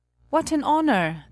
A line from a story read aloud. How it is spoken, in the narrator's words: cried all the courtiers